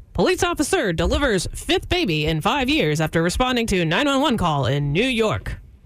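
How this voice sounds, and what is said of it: Newscaster-style headline voice. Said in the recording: “do the Telecaster voice real fast”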